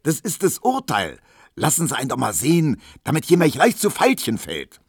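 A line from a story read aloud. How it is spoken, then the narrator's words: Shouted. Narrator (German): schrie Tisch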